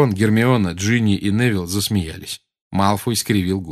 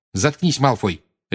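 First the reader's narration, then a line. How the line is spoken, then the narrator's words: Sharp. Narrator (Russian): резко сказала ему Гермиона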